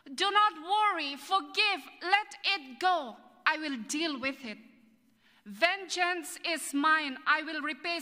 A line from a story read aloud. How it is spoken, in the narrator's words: says the Lord